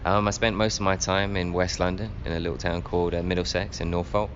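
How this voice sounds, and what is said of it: English accent. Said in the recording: “That's also where the accent stems from, isn't it? So where were you in England?”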